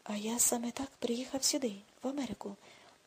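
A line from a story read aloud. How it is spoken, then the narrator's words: Quiet. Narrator (Ukrainian): тихо сказав Аксель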